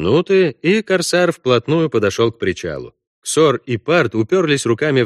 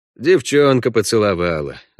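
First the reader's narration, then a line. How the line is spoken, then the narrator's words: Sighing. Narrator (Russian): вздохнул Парт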